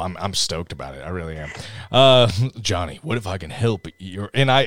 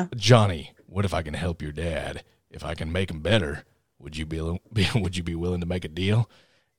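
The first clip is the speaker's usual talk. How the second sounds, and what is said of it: Put-on Southern US accent. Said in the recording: “Everyone is super Southern. Even Satan is super Southern ... do all these accents ... I also live in the South, so this is really easy”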